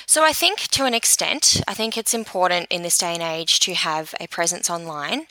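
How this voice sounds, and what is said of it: Australian accent. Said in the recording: “I have an, ac- an Australian accent.”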